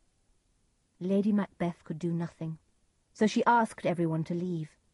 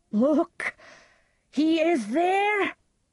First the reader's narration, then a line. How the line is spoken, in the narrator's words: cried